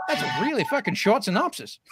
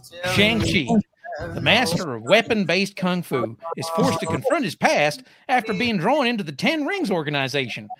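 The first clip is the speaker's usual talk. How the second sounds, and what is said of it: Terrible Ted Lasso accent. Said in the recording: “thanks for the terrible Ted Lasso accent ... You can do a lot of accents, but that one, no.”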